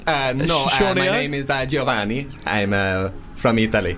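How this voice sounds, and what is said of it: Weird put-on Italian accent. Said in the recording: “This is a weird Italian accent.”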